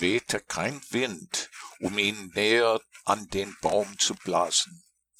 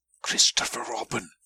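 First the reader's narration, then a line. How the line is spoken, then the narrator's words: Loud whisper. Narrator (German): flüsterte laut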